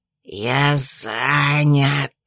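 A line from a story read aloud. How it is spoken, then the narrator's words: Irritated hiss. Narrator (Russian): раздалось в ответ раздраженное шипение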